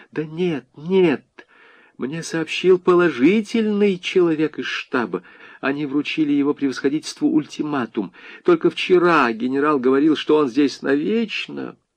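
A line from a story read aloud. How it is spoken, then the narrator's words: Pale, frightened whisper. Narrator (Russian): Панкова еще больше бледнее шептала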